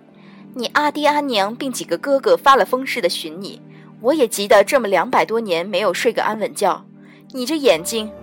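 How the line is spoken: Sighing exclamation. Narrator (Chinese): 折颜上神大是感叹

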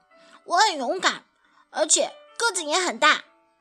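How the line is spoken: Quick shout. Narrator (Chinese): 阿瑟立刻喊道

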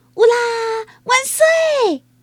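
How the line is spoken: Shout. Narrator (Chinese): 他大喊

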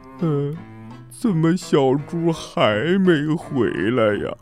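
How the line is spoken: Crying from hunger. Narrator (Chinese): 大灰狼们有的都饿哭了，他们说

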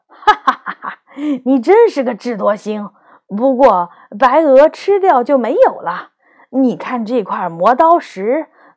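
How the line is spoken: Hearty laughter. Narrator (Chinese): 磨刀师傅听了，乐得哈哈大笑，说

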